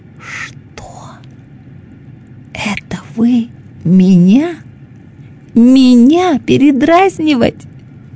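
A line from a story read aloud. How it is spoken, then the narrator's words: Breathless hiss. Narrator (Russian): Зашипела она, задыхаясь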